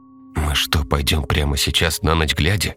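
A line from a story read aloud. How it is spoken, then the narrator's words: Frightened whisper. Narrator (Russian): испуганно прошептала мать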